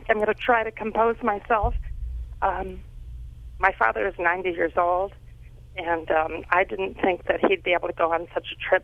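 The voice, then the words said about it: Quivering, emotional voice. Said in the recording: “my voice is just quivering because it was such an experience”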